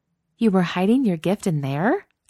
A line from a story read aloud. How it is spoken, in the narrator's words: asks Becca in a scandalized tone